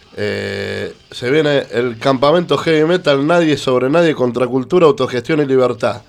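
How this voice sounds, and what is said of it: Radio announcer voice. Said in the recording (Spanish): “voz de locutor que tiene mejor que el locutor”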